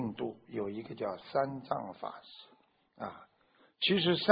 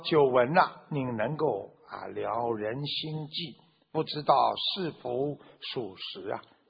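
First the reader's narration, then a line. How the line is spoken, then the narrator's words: Plain question. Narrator (Chinese): 他就问了这个三藏法师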